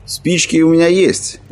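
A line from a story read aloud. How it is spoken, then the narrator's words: Cheerful. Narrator (Russian): весело проговорил человек в черном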